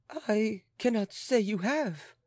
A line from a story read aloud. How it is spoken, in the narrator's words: faltered the woman of the people, amazed at the majesty and gentleness of Marie Antoinette